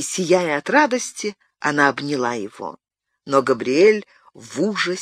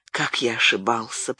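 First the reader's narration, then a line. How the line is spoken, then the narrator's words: Moved whisper. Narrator (Russian): прошептал он, взволнованный этим прикосновением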